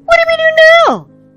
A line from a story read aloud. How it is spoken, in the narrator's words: squeaked Eleanor